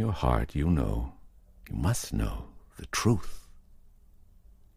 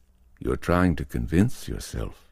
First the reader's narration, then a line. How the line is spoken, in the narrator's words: Lee said calmly